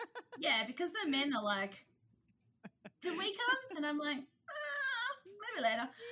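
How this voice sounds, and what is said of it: Usual voice. Nothing is said of it.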